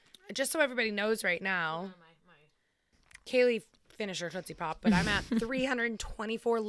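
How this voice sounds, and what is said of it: Usual voice. Nothing is said of it.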